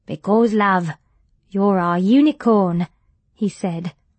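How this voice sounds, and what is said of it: Heavy Irish accent. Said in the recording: “His accent was Irish and heavier than Margaret's.”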